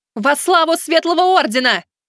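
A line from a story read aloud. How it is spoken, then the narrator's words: Shouted. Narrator (Russian): Аста прокричала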